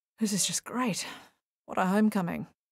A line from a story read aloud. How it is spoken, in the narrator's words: murmured Paul